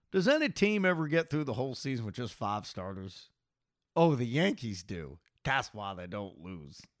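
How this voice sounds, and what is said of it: Imitates another person's voice. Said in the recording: “I'll try to do my Buck imitation.”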